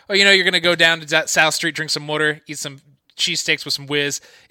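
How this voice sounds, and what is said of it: Put-on Philadelphia accent. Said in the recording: “I'm notoriously bad at the Philly accent”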